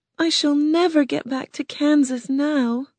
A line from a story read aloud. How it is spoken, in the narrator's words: she said sadly